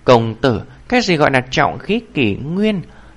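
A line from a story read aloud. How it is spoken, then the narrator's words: Soft, curious question. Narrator (Vietnamese): Tề Lâm đế nữ không kìm được khẽ hỏi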